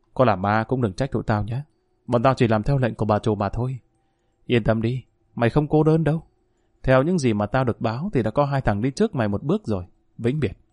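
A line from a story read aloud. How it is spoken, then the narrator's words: Whispering. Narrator (Vietnamese): tên vừa nói còn vỗ nhẹ vào bao rồi thì thào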